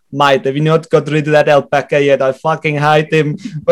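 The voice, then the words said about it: Put-on accent imitating someone. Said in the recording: “great accent. Great accent. ... That was class.”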